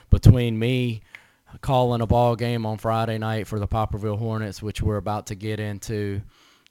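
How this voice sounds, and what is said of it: Hoarse voice. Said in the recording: “I'm a little hoarse, a little under the weather ... All that and a little head cold”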